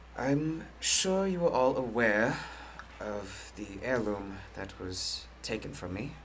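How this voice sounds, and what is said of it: Put-on accent. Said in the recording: “All these accents, am I right?”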